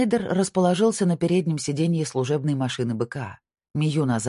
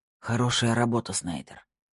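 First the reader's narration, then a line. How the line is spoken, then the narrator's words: Hoarse wheeze. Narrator (Russian): прохрипел он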